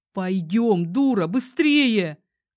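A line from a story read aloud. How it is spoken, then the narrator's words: Shouting. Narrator (Russian): кричал он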